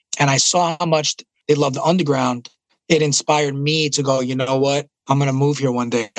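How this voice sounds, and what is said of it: Thick New York accent. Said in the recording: “my New York accent ... the one Puerto Rican guy with the thick New York accent”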